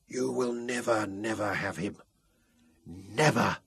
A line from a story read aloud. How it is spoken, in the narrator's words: Robin whispered fiercely from the cot